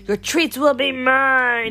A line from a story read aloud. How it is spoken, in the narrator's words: he cried, wholly demented